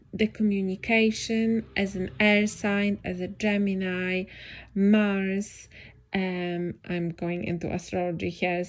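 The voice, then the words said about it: Non-native English accent. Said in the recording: “English is not my first language, that I that my accent is not great, that my pronunciation is lacking”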